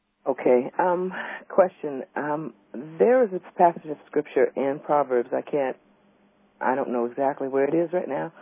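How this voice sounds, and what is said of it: Voice affected by illness. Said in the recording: “excuse my voice. I'm a little bit under the weather.”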